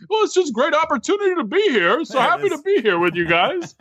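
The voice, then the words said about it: Imitates another person's voice. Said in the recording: “my Gary impersonation... It was fantastic. Spot on.”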